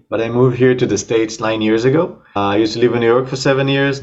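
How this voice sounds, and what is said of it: Israeli accent. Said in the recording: “As you can hear by my accent and by my name, I'm Israeli.”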